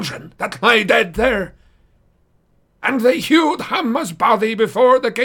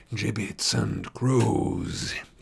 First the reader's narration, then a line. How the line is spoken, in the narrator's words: he hissed